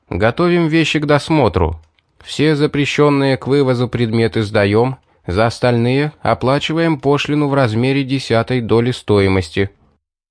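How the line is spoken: Loud. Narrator (Russian): громко сказал

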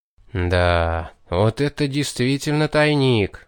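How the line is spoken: Stunned drawl. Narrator (Russian): Потрясенно протянул я, придя в себя после первого ошеломления

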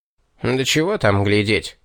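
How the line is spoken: Demon snorting. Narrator (Russian): фыркнул бес

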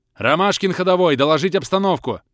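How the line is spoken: Barked over walkie-talkie. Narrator (Russian): рявкнул Кэп в ходи-болтайке

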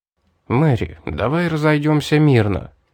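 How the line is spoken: Proposal after deep sigh. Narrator (Russian): глубоко вздохнув, предложил я

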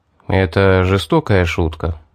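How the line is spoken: Sigh. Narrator (Russian): вздохнул я

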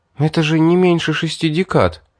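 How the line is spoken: Upset sigh, young woman. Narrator (Russian): огорченно вздохнула девушка

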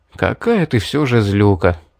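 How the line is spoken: Sighing. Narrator (Russian): вздохнул я

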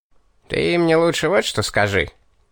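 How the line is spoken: Snide interrupting question. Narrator (Russian): перебил рогатый, ехидно осведомился

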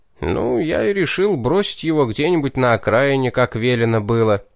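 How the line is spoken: Heavy sigh. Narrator (Russian): тяжко вздохнул Пит

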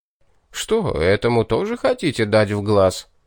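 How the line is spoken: Short guffaw. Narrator (Russian): хохотнул Рабле

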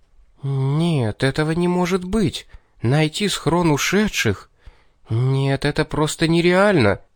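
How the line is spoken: Bewildered mutter. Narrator (Russian): до нее, кажется, начало доходить, так как она растерянно пробормотала

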